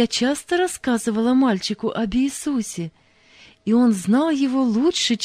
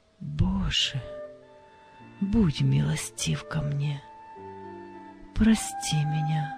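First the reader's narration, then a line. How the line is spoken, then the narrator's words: Quiet whisper. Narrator (Russian): его тихий шепот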